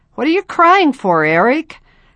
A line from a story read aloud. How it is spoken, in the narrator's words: Clay laughed